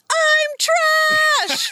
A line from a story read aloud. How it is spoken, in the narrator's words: when he screams